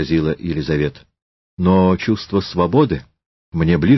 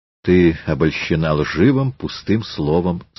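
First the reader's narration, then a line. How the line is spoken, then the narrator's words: Sullen. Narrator (Russian): Петр угрюмо сказал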